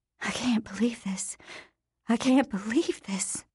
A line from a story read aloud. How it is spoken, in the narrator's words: Annette was mumbling